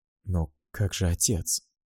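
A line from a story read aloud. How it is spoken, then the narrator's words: Whisper. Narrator (Russian): собственный шепот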